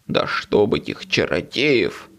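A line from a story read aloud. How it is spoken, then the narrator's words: Grumbling. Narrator (Russian): буркнул он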